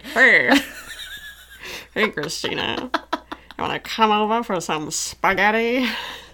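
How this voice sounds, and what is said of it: Old-timey seductive voice. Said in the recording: “You talk like an old timey, like,”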